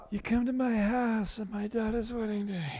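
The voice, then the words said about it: Poor Godfather mobster impression. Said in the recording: “That's a terrible Godfather impression.”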